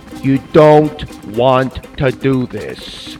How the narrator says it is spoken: the man said slowly into the microphone

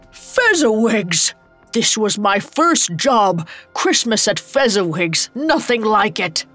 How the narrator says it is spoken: A familiar laugh roared over the music

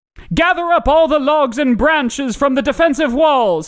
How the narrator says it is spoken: shouted Pantagron to his men

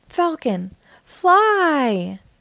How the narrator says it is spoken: cried Blaze

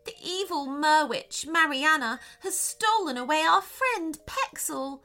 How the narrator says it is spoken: cried the second mermaid

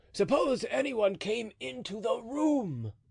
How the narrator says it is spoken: exclaimed Mousqueton

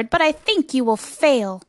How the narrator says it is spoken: sneered the bird

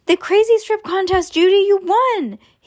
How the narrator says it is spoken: they heard Stink yell from across the street

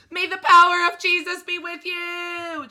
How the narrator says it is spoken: Trent screamed

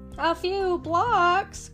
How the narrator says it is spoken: groaned Porky

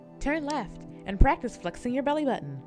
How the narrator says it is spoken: the GPS chirped happily

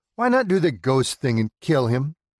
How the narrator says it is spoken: Stephanie laughs at Emily's innocence of the realities of our world

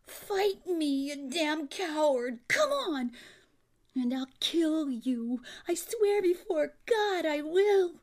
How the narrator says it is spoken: screaming

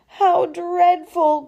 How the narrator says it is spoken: groaned Orville

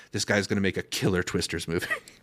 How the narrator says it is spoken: whisper

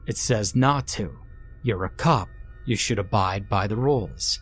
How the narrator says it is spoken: Tom replied

